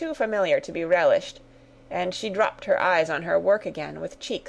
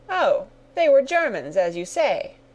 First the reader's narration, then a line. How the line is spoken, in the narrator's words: cried the Colonel, excessively vexed at the necessity of explaining at all